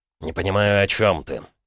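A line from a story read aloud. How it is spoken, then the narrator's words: Through gritted teeth. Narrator (Russian): процедил Гаранин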